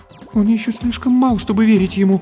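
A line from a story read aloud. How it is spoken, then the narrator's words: Frightened. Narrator (Russian): испуганно сказала Антония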